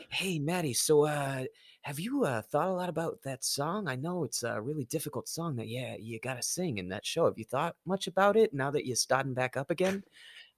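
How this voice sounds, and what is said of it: Impersonation of a Boston accent. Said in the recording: “he's from Boston, so excuse my impersonation.”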